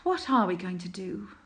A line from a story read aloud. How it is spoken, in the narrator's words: He sighed